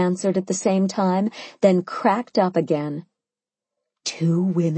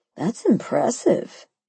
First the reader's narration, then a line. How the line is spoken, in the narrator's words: she sighed